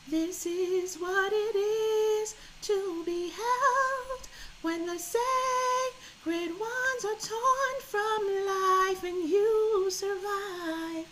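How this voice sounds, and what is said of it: Singing in falsetto. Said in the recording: “pardon my falsetto”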